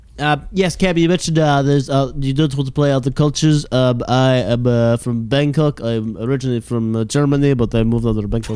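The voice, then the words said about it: German accent. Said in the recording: “That's a German accent.”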